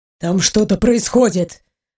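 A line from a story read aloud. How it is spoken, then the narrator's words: Tense breathless exclamation. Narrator (Russian): напряженно выдохнул Ваня, когда из пещеры донесся крик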